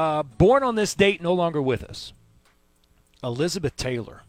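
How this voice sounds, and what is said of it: Usual voice. Nothing is said of it.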